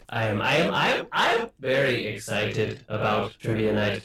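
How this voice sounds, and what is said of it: Vaguely European put-on robot accent. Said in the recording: “Yes, I'm vaguely European now. ... you sound a little Irish. ... Vaguely European. ... I am more Scandinavian.”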